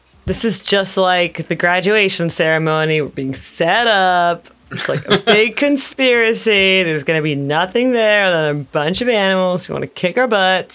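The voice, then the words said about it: Character voice. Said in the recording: “That was in my Lorna voice”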